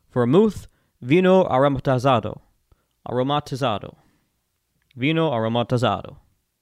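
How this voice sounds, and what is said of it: Exaggerated Italian accent. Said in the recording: “I just like saying words in a very embellished Italian accent.”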